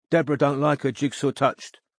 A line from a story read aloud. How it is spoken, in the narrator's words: said Samhain sternly